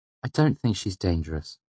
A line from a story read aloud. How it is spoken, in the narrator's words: Denner said in a normal tone behind me